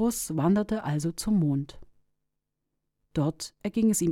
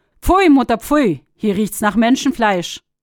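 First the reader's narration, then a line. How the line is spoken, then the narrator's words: Immediate call. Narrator (German): Die Sonne rief sogleich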